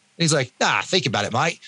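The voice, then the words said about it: Put-on Australian accent. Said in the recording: “I won't do the Australian accent anymore, because Canadian doing an Australian accent.”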